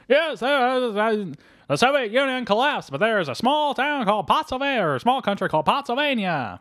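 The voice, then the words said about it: Good impression of the film's narrator. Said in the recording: “You do a very good impression of this”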